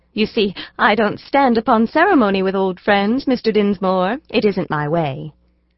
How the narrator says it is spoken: She said with a little laugh, in what was meant to be a very coy expression

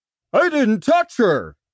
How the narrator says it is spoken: the heavy-set man said in a shrill voice

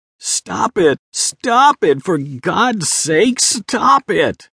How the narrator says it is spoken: Philip screamed out while frantically struggling with a deadbolt lock

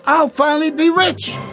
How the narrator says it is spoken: Rex exclaimed

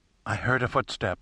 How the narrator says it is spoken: she whispered

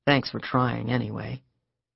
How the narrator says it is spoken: said quietly

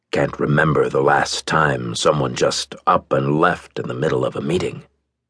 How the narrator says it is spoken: Cook said in his deep voice

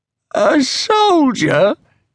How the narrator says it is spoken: croaked

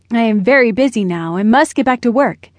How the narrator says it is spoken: grumbled

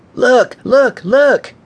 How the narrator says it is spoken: Aiden shouted

